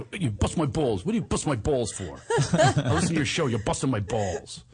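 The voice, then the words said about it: Italian-American style impression. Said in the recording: “I'm imitating him now. Talks like this with his hands ... he's like Italian”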